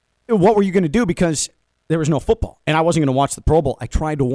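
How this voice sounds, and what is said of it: Usual voice. Nothing is said of it.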